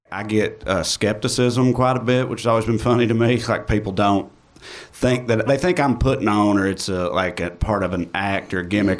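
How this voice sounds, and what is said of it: Strong uncommon regional accent. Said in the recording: “mouths with such accents ... how his accent is perceived out there ... somebody who sounds like me ... it's so uncommon out there”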